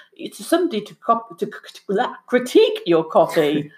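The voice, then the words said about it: French-accented pronunciation of a word. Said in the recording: “It's my French accent.”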